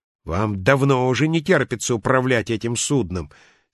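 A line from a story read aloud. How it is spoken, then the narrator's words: Angry. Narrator (Russian): сердито продолжал шкипер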